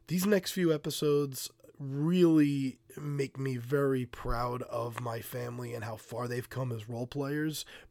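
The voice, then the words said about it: Voice sounds sick with a cold. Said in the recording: “If you couldn't hear from my voice, I'm currently fighting off a cold”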